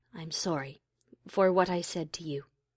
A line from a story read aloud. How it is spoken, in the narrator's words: She added into the silence quietly